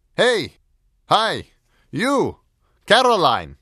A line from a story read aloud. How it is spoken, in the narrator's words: he shouted over the railing